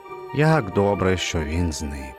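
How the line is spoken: Relieved sigh. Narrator (Ukrainian): полегшено зітхнув

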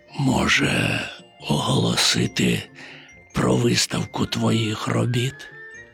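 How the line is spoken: Almost a whisper. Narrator (Ukrainian): майже пошепки мовив

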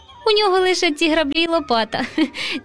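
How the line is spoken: Laughing. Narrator (Ukrainian): засміявся руденький Романко

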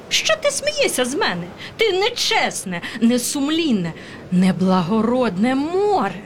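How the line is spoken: Squeaking titmouse. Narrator (Ukrainian): пищала синиця

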